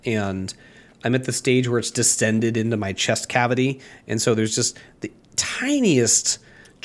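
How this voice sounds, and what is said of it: Voice slightly off from a cold. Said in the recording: “Y'all listening at home can probably tell, my voice is like not quite at 100% because I've been dealing with a super minor head cold”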